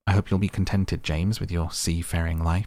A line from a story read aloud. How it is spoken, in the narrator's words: she said